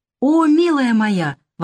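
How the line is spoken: Exclaimed. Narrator (Russian): воскликнула та

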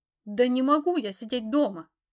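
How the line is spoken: Growled assertive reply. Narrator (Russian): рыкнула я в ответ, чувствуя, что могу отстаивать свои интересы

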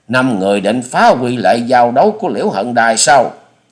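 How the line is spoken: Loud shout. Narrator (Vietnamese): Chủ nhân Ban Quốc hét to

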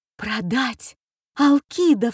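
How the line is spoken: Involuntary cry. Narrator (Russian): вскрикнула я невольно

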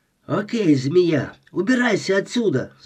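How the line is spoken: Shouting. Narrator (Russian): закричала она

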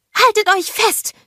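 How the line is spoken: Female scream. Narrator (German): schrie sie

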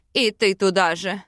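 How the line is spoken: Irritated grumble. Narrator (Russian): раздраженно буркнул Аринель

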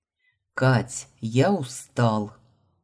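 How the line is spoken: Displeased growl. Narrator (Russian): недовольно рыкнул

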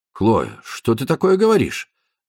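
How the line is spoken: Offended objection. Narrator (Russian): обиженно возразил он

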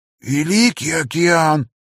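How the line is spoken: Hoarse wheeze. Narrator (Russian): просипел он наконец

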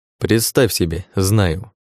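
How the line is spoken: Calm answer. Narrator (Russian): спокойно ответил ему я

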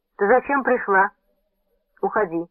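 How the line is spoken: Sharp, displeased question. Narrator (Russian): Дон Луис нахмурился, резко спросил

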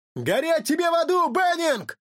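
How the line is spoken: Shout from behind. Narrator (Russian): кто-то крикнул ему в спину

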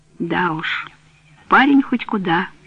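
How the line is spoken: Sighing. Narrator (Russian): Вздохнул он

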